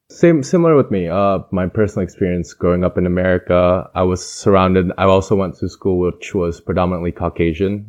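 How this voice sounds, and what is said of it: Midwestern American accent. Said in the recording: “I have pretty much a Midwestern American accent”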